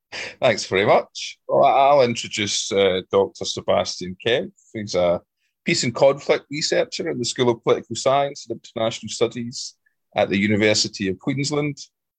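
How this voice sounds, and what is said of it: Accent like Billy Connolly's. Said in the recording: “you will hear his accent in a second ... a kind of down under version of Billy Connolly”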